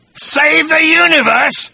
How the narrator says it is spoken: spat Agrajack with contempt

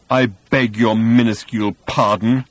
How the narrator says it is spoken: roared Thor

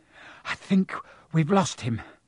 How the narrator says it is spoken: Harry panted

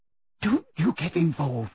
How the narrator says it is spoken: Hermione whispered urgently to him

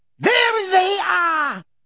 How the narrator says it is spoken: she shrieked

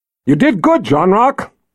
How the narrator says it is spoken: Richard yelled over the cheering

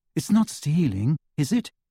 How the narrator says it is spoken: asked Hermione in a troubled voice

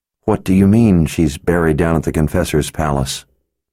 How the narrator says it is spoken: he asked in a shaky voice

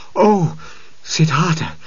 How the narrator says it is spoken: he cried

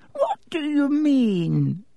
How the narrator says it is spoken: said Dippet with a squeak in his voice

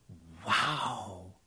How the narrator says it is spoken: Ron sighed

